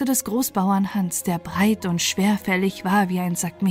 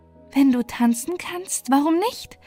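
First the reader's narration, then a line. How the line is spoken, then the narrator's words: Laughing, mocking answer. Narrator (German): antwortete, lachte ihn aus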